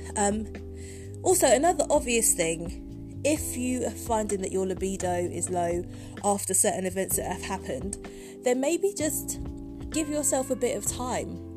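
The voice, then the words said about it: Voice affected by a cold. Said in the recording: “I've got a cold again”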